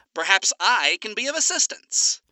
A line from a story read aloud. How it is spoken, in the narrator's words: Alistair announced in a transatlantic accent, overlaid by distorted radio static